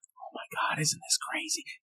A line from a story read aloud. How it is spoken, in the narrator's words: she starts whispering